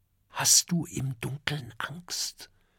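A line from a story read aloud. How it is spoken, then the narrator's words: Whispered. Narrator (German): flüstert Oskar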